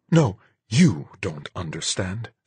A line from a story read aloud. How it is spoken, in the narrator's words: she said, her voice venomously low